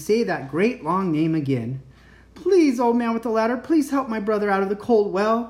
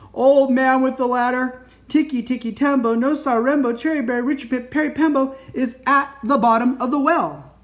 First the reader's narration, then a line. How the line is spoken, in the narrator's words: with his very last bit of breath, he shouted